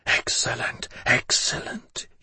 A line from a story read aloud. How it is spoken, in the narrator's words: he whispered